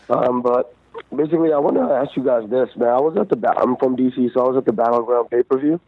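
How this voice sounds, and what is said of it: Congested voice, slightly off. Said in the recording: “I have a cold, so my voice is kind of off.”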